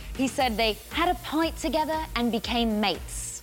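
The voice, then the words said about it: Put-on British accent. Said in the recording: “I'm going to try to do a British accent here.”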